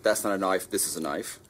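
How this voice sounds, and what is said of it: Exaggerated Australian accent. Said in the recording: “in your best Australian accent”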